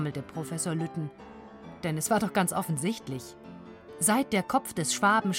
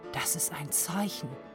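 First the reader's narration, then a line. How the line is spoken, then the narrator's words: Whispered. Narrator (German): flüsterte Valentinas Vater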